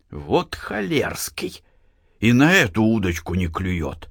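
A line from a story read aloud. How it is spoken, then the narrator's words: Half-audible old man's whisper. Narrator (Russian): Чуть не вслух прошептал дед Фишка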